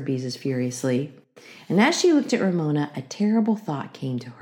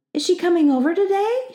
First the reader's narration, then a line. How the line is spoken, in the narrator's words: she asked eagerly